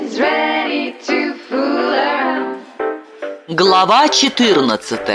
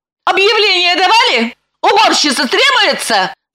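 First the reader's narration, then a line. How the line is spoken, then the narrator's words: Mock-angry. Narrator (Russian): Нарочито-сердито спросила она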